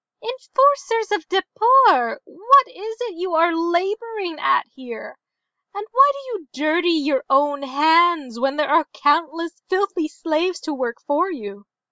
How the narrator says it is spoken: called out

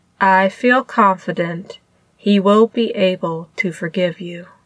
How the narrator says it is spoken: Lan Zhan said in a perfectly flat tone

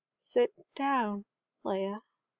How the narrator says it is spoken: Queen Breha whispered at last

